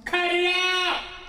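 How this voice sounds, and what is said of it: Yelling. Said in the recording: “Please stop yelling.”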